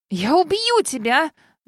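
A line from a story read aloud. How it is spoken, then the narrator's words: Very loud yell. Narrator (Russian): заорала преследовательница едва ли не громче меня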